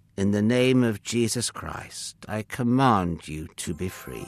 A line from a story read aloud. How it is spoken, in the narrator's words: Paul said firmly but gently